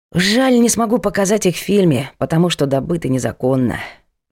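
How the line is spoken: Sigh. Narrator (Russian): вздохнул Правдин

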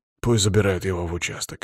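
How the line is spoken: Grumbling mutter. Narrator (Russian): буркнул Палыч

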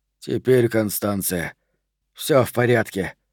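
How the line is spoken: Breathless mutter. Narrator (Russian): задыхаясь, пробормотал он

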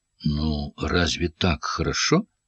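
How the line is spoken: Quiet question. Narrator (Russian): спросила она тихо

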